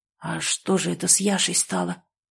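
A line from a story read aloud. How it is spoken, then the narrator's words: Hoarse question. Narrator (Russian): сипло спросил Семен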